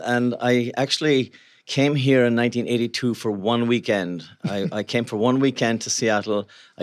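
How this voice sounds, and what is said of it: Irish accent. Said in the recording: “You have a bit of an accent. ... I come from Ireland”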